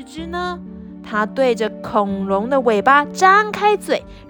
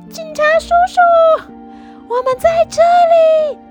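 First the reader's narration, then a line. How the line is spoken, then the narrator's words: Shouting. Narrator (Chinese): 罗罗和跳跳大叫起来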